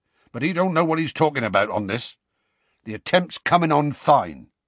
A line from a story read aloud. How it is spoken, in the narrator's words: he said gruffly